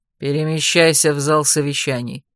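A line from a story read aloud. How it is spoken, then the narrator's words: Sullen mutter. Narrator (Russian): хмуро буркнул Анах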